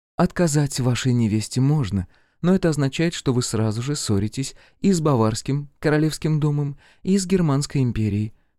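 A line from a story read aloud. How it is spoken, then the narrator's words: Soft speech. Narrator (Russian): мягко сказала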